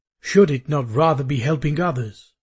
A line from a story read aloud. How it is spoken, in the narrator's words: I asked rather coldly